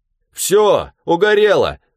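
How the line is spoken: Cheerful shouting into phone. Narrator (Russian): весело закричал в трубку

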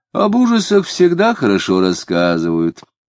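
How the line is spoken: Lazy. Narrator (Russian): лениво проговорила Марина

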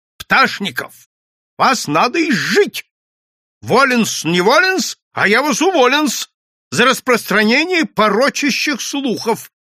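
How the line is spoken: Angry shout. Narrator (Russian): Иоанн Польский сердито крикнул

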